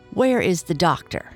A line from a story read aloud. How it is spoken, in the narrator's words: asked the man sharply